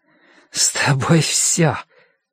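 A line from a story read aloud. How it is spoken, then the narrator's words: Hoarse voice. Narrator (Russian): девушка сказала хрипло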